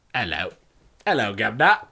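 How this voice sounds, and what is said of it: Put-on British accent. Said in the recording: “How spot on were our British accents, though?”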